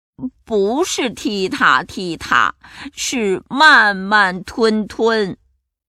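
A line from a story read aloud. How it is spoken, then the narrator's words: Mocking. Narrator (Chinese): 头目汉克嘲笑着说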